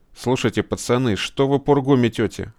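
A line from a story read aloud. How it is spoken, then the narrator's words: Irritated interjection. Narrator (Russian): раздраженно вмешался Гора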